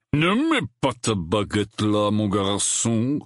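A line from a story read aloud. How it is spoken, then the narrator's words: Roar. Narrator (French): rugit Maugrey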